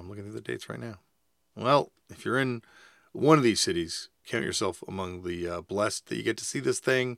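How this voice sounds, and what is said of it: Shredded, hoarse voice. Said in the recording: “my voice is shredded ... voice stress from doing podcasts”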